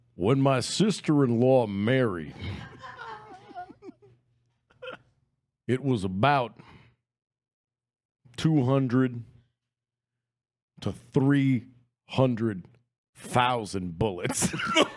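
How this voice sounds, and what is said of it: Put-on Texas drawl. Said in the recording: “Do it in a Texas accent. ... a bit of a Texas Balky Bartokomus kind of accent ... So I'll do it in a Texas drawl here.”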